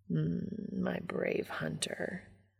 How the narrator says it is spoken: Castiel murmurs

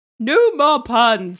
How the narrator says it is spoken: shouted

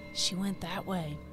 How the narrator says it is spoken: A voice from ahead whispers

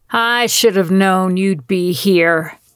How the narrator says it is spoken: she snarled

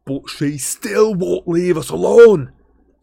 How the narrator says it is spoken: snarled Ron

